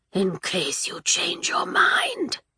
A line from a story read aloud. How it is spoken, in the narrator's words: rasped the assassin